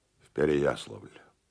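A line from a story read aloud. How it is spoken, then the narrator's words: Quietly spoken. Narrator (Russian): произнеся негромко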